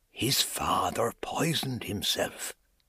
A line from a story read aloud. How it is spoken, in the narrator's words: whispered